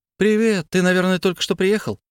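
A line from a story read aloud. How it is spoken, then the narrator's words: Cheerful girl's question. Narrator (Russian): весело спросила девочка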